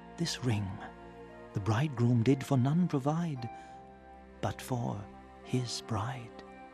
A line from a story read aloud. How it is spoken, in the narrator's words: one whispered thus